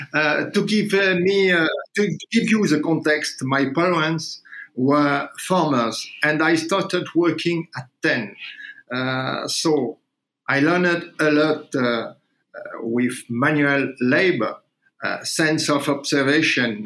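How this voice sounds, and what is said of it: Accented English. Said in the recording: “with my accent, of course.”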